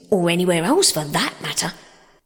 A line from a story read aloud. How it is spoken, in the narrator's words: cried Toad boisterously